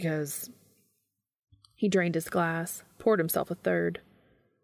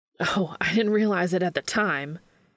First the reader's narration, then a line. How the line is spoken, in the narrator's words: Sam spat